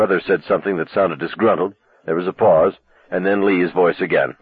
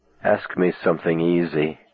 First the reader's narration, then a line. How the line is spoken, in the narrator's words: he whispered